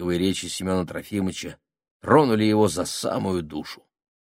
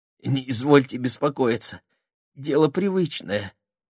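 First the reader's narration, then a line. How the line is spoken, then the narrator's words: Trembling voice, loud sob. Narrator (Russian): ответил с дрожью в голосе Сеня и громко всхлипнул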